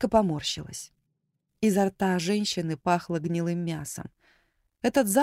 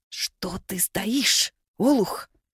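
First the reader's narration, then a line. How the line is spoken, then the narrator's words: Woman hissing angrily. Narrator (Russian): шипела женщина на мужа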